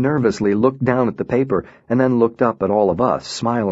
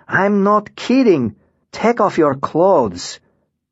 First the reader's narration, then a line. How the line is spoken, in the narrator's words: Lara shouted